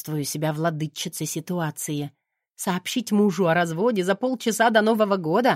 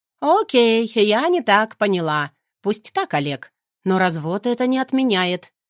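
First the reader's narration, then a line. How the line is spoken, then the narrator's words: Sharp. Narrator (Russian): резко выдаю я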